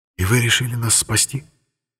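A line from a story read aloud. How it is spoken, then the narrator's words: Surprised whisper. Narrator (Russian): удивленно прошептал Арамис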